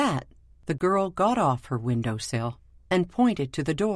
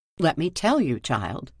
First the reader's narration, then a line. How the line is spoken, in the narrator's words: he said, not taking kindly to being interrupted